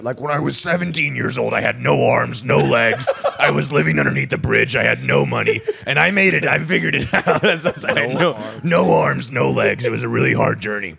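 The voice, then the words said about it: Imitates another person's voice. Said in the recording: “Tony Robbins impersonation ... his is hard ... He's like most powerful voice I've ever heard.”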